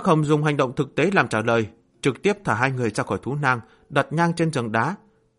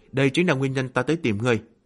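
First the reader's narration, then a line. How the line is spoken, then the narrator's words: Sighing. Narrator (Vietnamese): Yến Bắc Hồng thở dài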